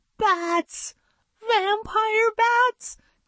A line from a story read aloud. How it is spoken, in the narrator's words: cried Jeremy